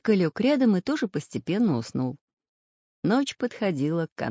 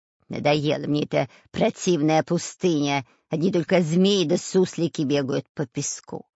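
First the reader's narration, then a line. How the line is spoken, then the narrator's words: Nasty creaky voice. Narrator (Russian): Противным голосом заскрипел шпион Дырка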